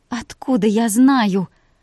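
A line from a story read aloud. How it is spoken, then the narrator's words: Groaning. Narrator (Russian): Простонала Вика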